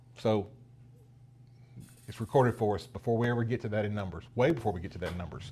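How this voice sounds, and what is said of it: Regional rural American accent. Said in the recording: “my Heaton County accent”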